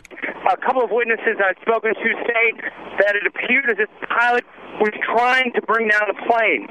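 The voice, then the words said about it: Breathless, out-of-breath speech. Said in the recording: “I'm a little out of breath. I'm actually running south”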